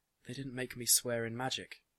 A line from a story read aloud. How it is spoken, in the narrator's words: she said